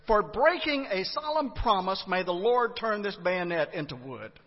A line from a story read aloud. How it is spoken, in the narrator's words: somberly he loudly declared